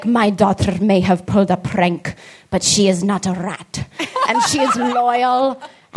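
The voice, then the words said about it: Imitated Cuban accent, done poorly. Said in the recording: “My dad's from Cuba, so he has an accent. I don't do it very well”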